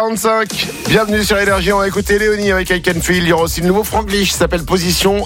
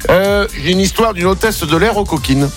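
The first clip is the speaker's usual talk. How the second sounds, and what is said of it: Playful put-on accent. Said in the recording (French): “Pourquoi je prends cet accent-là, je ne sais pas, mais parce qu'elle est coquine.”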